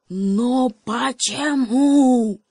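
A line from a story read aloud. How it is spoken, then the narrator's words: Desperate shout. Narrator (Russian): Гепард замер и крикнул в отчаянии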